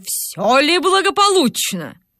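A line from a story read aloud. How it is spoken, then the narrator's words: Stern question. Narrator (Russian): спросил строгим голосом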